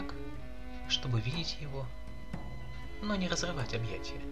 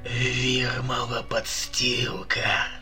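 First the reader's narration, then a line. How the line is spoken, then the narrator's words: Growl. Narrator (Russian): рыкнул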